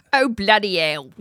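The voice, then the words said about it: British accent. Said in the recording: “Actually, we have a really good accent.”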